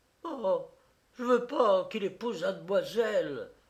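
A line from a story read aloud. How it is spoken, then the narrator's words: Exclaimed. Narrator (French): s'écria-t-elle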